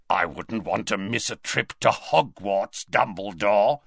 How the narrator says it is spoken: rasped Greyback

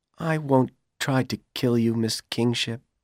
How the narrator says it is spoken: Powell said sadly

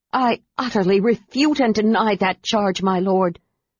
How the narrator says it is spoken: Her voice trembling with rage, Kitiara stated

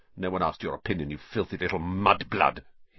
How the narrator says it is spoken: he spat

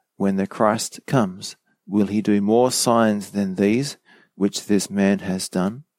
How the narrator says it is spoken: the people murmuring

